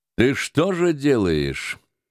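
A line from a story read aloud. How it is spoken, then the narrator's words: Dry, bossy question. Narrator (Russian): сухо начальнически спросил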